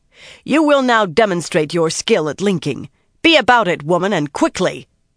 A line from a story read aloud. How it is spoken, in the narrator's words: the Windfinder announced loudly